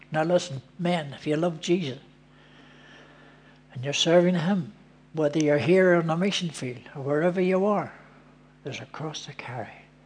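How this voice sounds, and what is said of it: Belfast accent. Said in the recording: “your Belfast accent”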